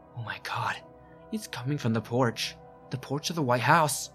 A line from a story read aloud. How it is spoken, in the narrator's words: Suddenly, Tina says in a quiet, shivering voice